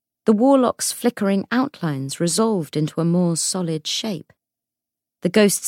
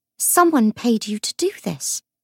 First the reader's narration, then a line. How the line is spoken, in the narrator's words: Lucy whispered